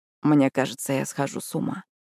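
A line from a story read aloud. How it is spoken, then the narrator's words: Quiet. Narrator (Russian): тихо выдал Хьюз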